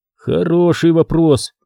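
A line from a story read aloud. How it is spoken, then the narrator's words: Creaky voice. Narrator (Russian): проскрипел Зак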